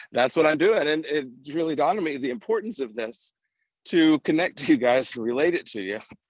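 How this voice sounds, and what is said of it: Out of breath while walking. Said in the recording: “out of breath”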